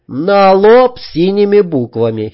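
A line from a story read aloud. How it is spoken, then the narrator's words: Pleased giggle. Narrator (Russian): хихикнул довольный поляк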